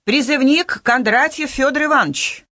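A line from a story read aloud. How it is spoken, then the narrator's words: Loud. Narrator (Russian): Военком громко произнес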